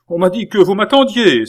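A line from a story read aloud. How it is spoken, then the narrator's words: Exclaimed. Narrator (French): s'écria le cardinal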